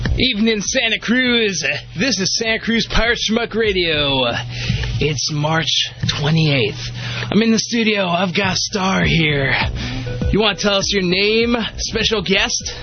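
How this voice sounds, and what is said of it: Put-on radio DJ voice. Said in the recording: “your radio voice ... That's not how you talk ... it bothers me knowing you personally that you talk like this on the radio”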